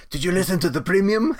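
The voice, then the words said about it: Poor attempt at French Canadian accent. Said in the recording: “That is not a French Canadian accent. ... was terrible. ... That was awful. ... Horrible.”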